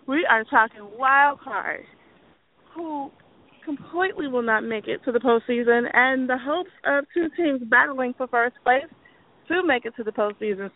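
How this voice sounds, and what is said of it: Hoarse, strained voice. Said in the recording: “I think I'm so excited that I'm losing my voice.”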